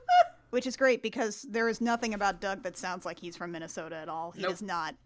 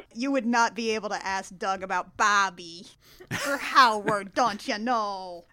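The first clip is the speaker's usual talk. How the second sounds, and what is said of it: Put-on Minnesota accent. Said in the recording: “All of my Minnesota accent abilities come directly from Bobby's world.”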